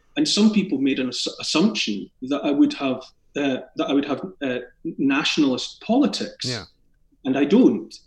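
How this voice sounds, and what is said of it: Scottish accent. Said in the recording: “I'm obviously someone from born in Scotland and raised in Scotland. I have a Scottish accent”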